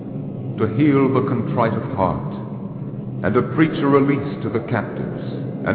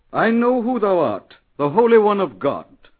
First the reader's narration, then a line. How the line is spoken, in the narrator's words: cried out in the presence of many